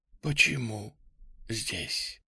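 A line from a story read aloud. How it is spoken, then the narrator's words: Quick, harsh, hoarse, frightening. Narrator (Russian): Ее слова были скорыми, резкими, голос сиплый, пугающий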